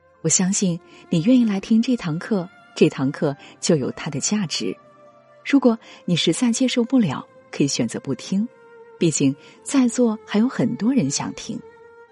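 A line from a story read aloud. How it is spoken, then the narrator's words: Smiling. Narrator (Chinese): 他笑着说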